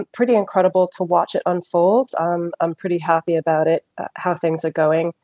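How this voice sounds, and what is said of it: Non-English accent. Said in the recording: “Nice to hear a different accent. ... Had a couple of the English gents on so far”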